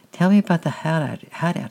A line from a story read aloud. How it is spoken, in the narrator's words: said